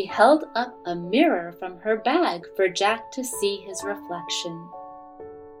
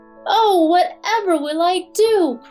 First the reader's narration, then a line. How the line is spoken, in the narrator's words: cried Jack